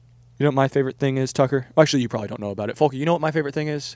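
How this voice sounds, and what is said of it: Usual voice. Nothing is said of it.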